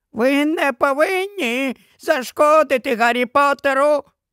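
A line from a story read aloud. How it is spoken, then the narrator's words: Squeak. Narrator (Ukrainian): пропищав він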